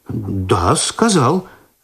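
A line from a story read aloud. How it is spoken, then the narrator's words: Confused confirmation. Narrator (Russian): растерянно подтвердил Починский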